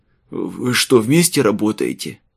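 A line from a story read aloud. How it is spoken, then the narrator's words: Strained wheeze. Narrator (Russian): С трудом прохрипел он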